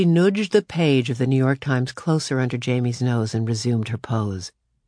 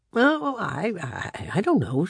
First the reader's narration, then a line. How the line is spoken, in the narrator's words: she stammered